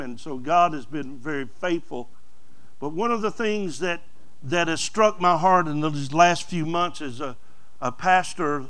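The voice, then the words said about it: Southern American accent. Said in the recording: “the southern dialogue and accent.”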